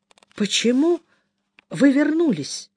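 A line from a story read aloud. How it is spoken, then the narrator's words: Unsteady, shaky question. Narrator (Russian): нетвердым голосом спросила Белилия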